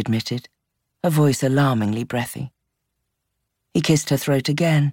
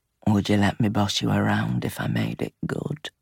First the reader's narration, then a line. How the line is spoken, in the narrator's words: ask in a low, rough voice